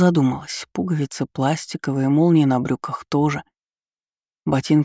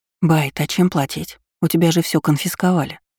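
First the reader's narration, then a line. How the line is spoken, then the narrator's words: Whisper. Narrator (Russian): шепнула Лу капитану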